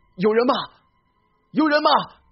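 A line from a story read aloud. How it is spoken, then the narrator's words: Calling out. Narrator (Chinese): 我开始呼喊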